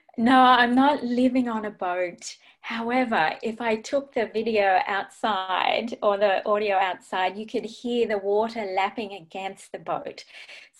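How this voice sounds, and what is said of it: Speaks with a noticeable accent. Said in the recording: “we get to hear her lovely accent again”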